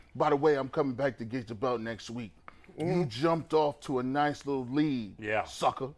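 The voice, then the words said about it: Imitates pro wrestlers' voices. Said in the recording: “I got the Harlem Heat voice going. Booker T and Stevie Ray in my ears right now ... That's a good impression.”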